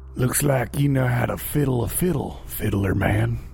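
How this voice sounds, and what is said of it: Western cowboy accent. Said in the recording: “my best Western impression”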